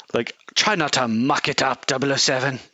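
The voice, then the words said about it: Posh hoity-toity British snob voice. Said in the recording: “That was a good impression. ... It's just so, like, cliche, hoity-toity, British snob.”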